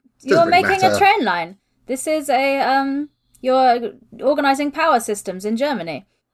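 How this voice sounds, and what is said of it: Put-on German accent. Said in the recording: “I love the German accent that crept in there.”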